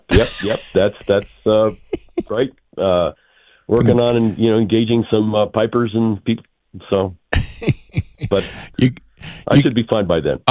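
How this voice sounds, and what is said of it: Slightly weird, unwell-sounding voice. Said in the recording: “I'm a little under the weather ... my voice sounds a little weird.”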